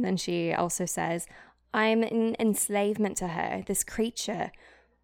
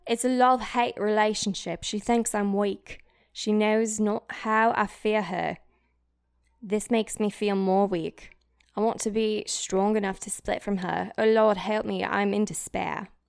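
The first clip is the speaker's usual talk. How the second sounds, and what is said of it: Put-on British accent. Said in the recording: “Oh, wait, British accent.”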